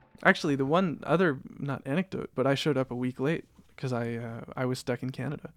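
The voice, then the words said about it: Canadian accent. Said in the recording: “who's this person with the a Canadian, Canadian, accent?”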